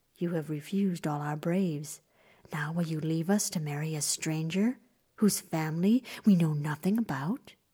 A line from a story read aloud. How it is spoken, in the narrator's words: The mother frowned and whispered to her daughter